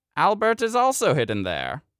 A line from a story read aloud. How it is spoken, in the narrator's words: she cackled to herself